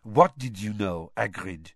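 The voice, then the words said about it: Low purring voice, Madame Maxime. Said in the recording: “Madame Maxime, a distinct purr in her low voice”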